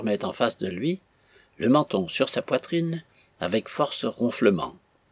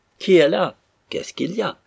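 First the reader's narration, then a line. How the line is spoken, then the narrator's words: Startled waking cry. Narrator (French): s'écria le dormeur, s'éveillant en sursaut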